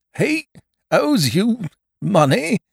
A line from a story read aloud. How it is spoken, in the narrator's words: faltered Mr